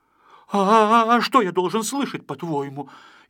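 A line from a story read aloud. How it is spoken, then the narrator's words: Frightened, wary. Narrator (Russian): испуганно насторожился Пончик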